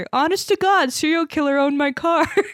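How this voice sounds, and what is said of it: Imitates a Canadian accent. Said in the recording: “Canadian accent slipping through.”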